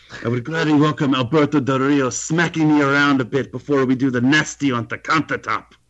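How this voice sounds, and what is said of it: Exaggerated put-on accent. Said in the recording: “I'm bad at accents... You almost went hard with that accent.”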